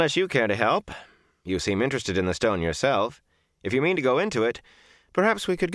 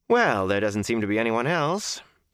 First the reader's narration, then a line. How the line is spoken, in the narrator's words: Matt said dryly